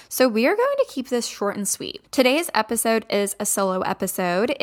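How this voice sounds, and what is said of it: Strained, fading voice. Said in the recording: “my voice is kind of going out”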